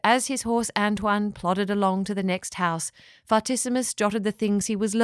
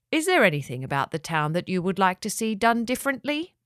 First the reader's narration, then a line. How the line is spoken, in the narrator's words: asked Fartissimus